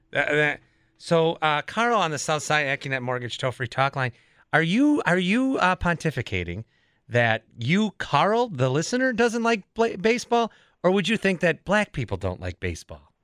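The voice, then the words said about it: Imitates a radio talk host's voice. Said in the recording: “I'm going to ask you in my Jeff Wagner voice.”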